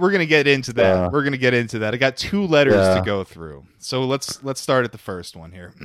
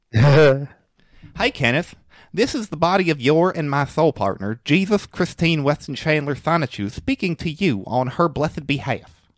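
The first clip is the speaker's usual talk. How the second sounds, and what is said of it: Silly put-on character voice. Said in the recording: “I do the stupid voice”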